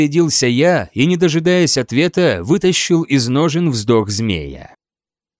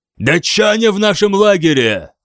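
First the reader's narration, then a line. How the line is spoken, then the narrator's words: Shouting. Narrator (Russian): крикнул я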